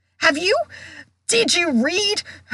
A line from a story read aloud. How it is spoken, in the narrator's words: he sputtered